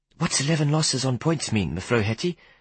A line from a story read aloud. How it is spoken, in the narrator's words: I asked urgently